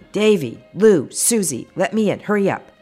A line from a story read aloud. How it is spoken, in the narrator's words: pound on the front door yelling